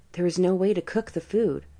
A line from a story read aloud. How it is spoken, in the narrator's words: Quietly, she replied